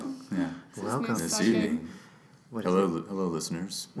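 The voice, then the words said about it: Late-night radio host voice. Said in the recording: “I'll talk like the late night talk show, radio show.”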